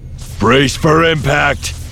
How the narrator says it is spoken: Jace shouted

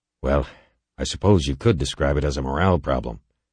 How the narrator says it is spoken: Halverson sighed

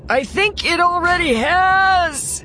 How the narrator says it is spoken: he shouted

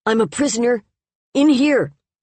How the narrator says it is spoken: He hesitated and nerved himself and shouted out

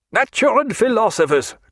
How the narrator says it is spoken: cried the colonel at last

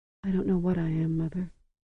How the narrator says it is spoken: she whispered in her voice that was seldom more than a whisper

